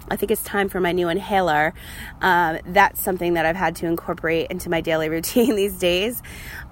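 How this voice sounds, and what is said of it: Strained, failing voice. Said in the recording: “before I completely lose my voice again, because this is what has been happening lately”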